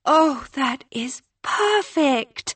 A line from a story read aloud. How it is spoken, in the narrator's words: April breathed, reverentially and seriously